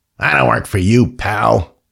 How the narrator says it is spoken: he did snarl

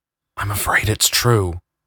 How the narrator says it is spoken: whispered Jonathan, trying not to alert the people around them

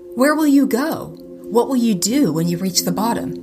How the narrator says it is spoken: giant kin one cried out

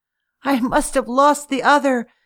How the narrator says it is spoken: she sobbed

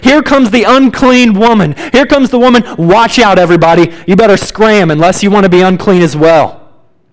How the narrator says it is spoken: People would have to yell

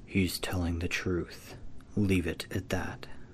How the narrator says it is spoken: whispered

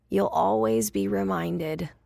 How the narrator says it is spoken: she said in her hoarse, heroic voice

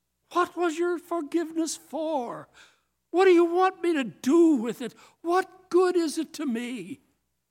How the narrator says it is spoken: Breaking into sobs, bursts out

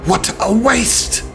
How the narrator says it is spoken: the old geezer screams, his voice tinged with something otherworldly, as if discordant voices speak from the mouth

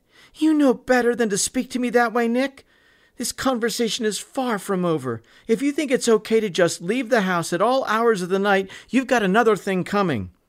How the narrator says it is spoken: Mary shouted back at her son

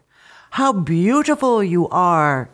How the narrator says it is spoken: exclaimed Patimo's mother

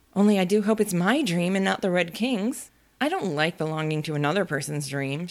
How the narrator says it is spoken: she went on in a rather complaining tone

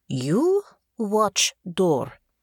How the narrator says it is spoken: the guard said in thickly accented common

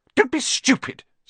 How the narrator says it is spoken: snapped Aunt Petunia

